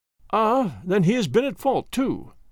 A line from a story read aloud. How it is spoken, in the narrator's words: exclaimed Jones, with evident satisfaction